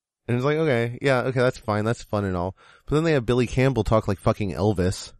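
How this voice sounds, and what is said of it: Usual voice. Nothing is said of it.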